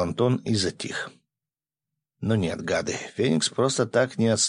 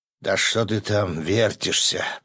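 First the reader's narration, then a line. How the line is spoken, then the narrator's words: Sleepy grumble. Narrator (Russian): проворчал сонный голос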